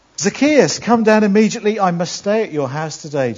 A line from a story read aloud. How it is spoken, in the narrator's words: Jesus said